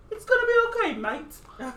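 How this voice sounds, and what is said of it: Terrible fake British accent. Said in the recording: “is that your British accent? ... It's terrible.”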